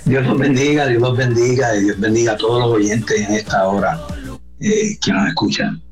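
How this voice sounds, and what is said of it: Distinctive Puerto Rican Spanish accent. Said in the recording (Spanish): “sí se oye, como que está en Puerto Rico. Oye, qué bonito acento, ¿verdad? Bien distintivo.”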